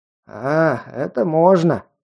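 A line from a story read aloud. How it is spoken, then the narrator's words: Hoarse rasp. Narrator (Russian): прохрипел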